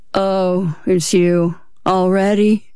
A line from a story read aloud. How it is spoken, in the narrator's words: He yawned again